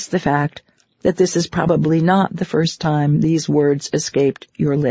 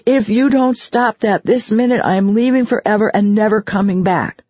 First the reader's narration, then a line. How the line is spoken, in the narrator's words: shouting